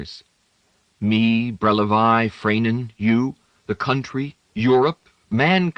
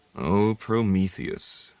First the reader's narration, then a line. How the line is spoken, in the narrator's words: Brunoy said very softly